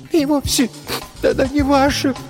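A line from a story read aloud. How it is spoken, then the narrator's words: Tearful girl mumbling. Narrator (Russian): сквозь слезы пробормотала девочка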